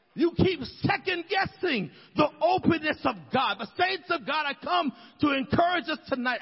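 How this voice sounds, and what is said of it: Passionate yelling. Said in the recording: “I don't know why I'm yelling tonight, but I feel so passionate about this”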